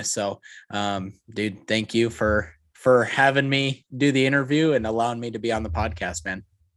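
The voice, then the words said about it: Smooth radio voice. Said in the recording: “you got that smooth radio voice.”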